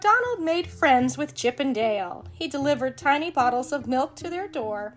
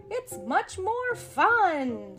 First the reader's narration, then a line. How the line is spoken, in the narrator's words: said Donald happily